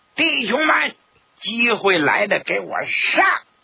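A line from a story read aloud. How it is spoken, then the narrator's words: Loud shout. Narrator (Chinese): 他大喊一声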